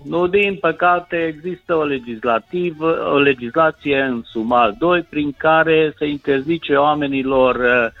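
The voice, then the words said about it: Hoarse voice. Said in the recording (Romanian): “Răgușit ... am răgușit de 3 săptămâni și numai nu vrea să-mi treacă.”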